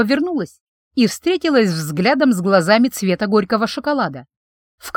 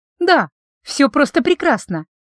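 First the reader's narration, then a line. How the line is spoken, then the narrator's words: Beaming, cheerful. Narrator (Russian): Просияла я во все свои 32 зуба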